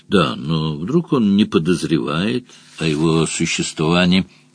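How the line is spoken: Ingratiating question. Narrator (Russian): Вкрадчиво спросил Мадж

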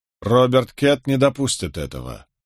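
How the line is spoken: Firm declaration. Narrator (Russian): заявил я

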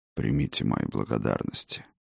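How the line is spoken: Muffled voice. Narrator (Russian): глухо проговорил дракон

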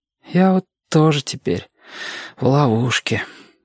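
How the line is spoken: Sighing. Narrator (Russian): вздохнул Сашка

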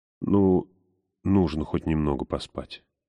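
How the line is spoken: Muttering. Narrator (Russian): пробормотала Ламия Брон

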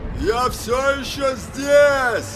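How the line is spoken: Shout. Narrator (Russian): крикнул он Алому Королю

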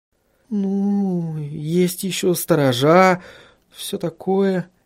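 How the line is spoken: Uncertain. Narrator (Russian): неуверенно произнесла Сахариса

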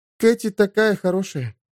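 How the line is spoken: Almost sad. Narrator (Russian): сказала почти печально

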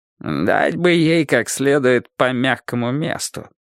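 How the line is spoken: Grumbling. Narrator (Russian): проворчал Бресли

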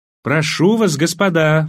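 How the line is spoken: Exclaimed, woman. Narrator (Russian): воскликнула фрау Фрисландер

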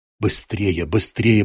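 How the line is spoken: Mutter. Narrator (Russian): пробормотал Крамер

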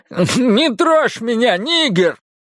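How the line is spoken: Shout. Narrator (Russian): крикнул

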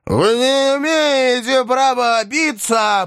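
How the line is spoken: Half-choked shout. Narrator (Russian): полузадушенный кричал Шариков

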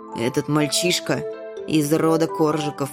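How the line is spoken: Grim grumble. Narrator (Russian): мрачно буркнул он

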